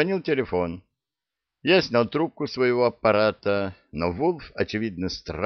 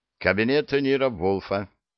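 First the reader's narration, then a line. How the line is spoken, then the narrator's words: Stern. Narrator (Russian): строго сказал я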